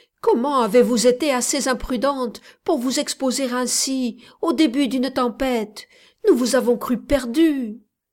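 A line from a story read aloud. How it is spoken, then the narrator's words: Exclaiming. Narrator (French): s'écria-t-il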